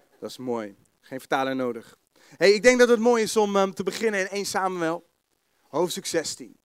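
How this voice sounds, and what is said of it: The Hague Dutch accent. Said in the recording (Dutch): “mijn Haagse accent”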